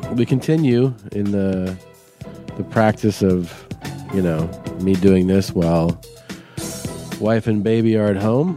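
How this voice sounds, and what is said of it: Congested voice with a cold. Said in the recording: “Can you tell by my voice I have a cold?”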